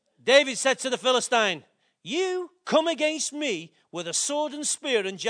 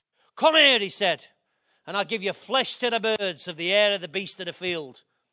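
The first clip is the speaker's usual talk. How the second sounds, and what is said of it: Put-on Scottish accent. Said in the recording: “Almost like in a Scottish accent.”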